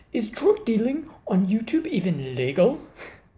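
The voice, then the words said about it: Put-on English accent. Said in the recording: “that's my English accent. I've been working on that ... my new accent skill”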